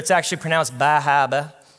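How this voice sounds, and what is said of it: Attempted Maine accent. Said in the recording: “Sorry to any Mainers out there if I butchered your accent.”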